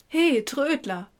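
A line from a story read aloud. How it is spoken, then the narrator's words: Calling from afar. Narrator (German): rief schon von Weitem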